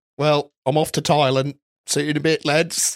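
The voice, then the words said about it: Put-on Australian accent. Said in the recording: “his commitment to the Australian accent for quite a while”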